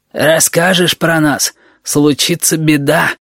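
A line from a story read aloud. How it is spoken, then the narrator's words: Hoarse voice. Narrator (Russian): добавил хриплый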